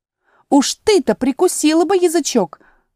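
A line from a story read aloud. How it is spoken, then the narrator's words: Exclaimed. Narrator (Russian): воскликнула тигровая лилия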